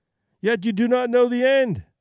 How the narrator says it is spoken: I cried triumphantly

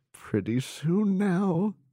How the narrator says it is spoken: he laughed

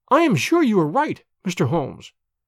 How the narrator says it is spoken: cried

